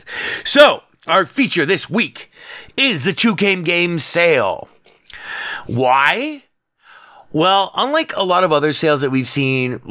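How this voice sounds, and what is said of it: Congested voice from a cold. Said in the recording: “I have this wicked cold ... if my voice gets all fucked up”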